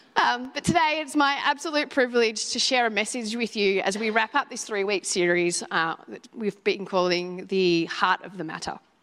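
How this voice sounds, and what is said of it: Voice worn from overuse. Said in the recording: “I have to excuse my voice. ... so I had to vocalise quite often.”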